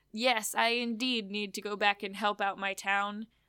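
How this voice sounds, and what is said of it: Unidentified put-on accent, old man voice. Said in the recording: “What accent is that”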